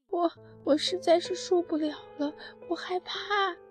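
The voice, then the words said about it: Quiet, frightened small voice. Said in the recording (Chinese): “小声地说道”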